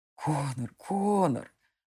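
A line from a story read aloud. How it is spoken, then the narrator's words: Muttered. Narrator (Russian): бормотал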